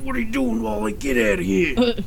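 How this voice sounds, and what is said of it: Gruff New York accent. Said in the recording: “With the New York accent, too.”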